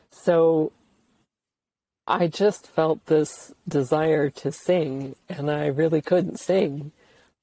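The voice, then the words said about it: Scratchy voice. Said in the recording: “my voice is getting scratchy”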